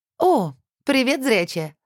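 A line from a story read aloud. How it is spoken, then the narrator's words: Cheerful greeting. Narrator (Russian): радостно поприветствовала Света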